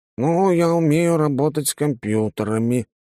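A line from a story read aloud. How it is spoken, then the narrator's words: Uncertain. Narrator (Russian): неуверенно проговорил Иннокентий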